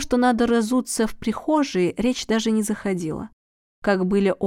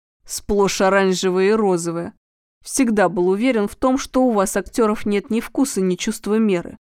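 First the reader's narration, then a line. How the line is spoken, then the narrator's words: Grumbling. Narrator (Russian): проворчал он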